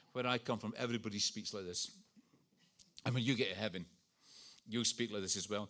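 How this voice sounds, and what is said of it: Scottish accent. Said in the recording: “I was brought up in Scotland... This is an accent. This is not an impediment. This is an accent.”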